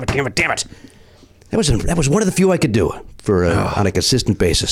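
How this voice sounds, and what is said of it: Usual voice. Nothing is said of it.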